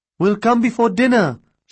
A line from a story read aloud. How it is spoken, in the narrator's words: she called out to Mina